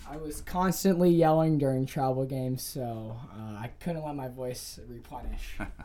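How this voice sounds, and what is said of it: Hoarse voice. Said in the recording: “I noticed that your voices are a little hoarse.”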